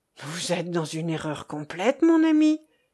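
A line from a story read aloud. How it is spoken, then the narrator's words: Exclaiming. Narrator (French): s'écria Lothaire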